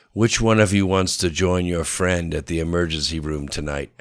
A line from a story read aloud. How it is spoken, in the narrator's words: asked Boris coldly